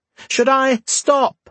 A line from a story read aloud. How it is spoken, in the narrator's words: Faye said, raising her voice so she could be heard